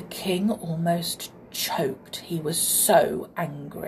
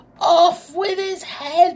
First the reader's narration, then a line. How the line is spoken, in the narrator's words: cried